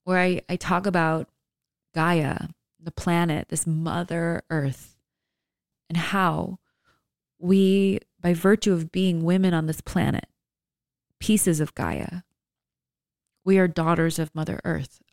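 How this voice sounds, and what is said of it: Emotional, choked-up speaking voice. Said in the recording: “Sorry, I'm getting emotional,”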